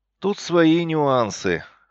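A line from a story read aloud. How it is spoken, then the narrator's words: Snort. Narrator (Russian): хмыкнул я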